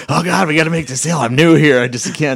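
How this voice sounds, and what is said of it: Imitates a frantic salesperson. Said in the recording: “that's my impression of a salesperson”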